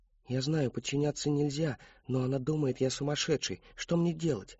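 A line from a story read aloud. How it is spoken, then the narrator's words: Whispering. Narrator (Russian): шептал он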